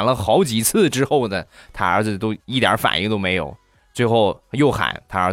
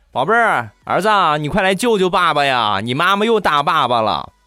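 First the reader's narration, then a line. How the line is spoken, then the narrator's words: Shouting. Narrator (Chinese): 地雷 冲他就喊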